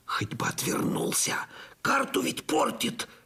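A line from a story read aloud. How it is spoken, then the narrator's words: Fearful moan. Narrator (Russian): ежась от страха простонал я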